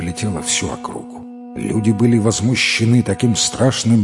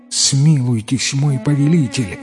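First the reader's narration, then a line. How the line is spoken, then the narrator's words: Pleading girl. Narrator (Russian): взмолилась девушка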